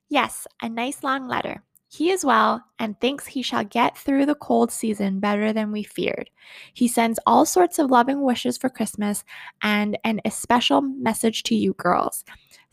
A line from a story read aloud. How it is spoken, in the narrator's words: said Mrs